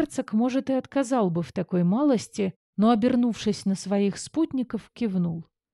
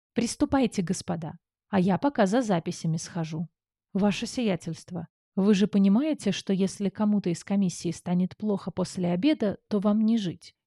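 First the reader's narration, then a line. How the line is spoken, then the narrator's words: Duke's quiet inquiry. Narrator (Russian): тихо поинтересовался герцог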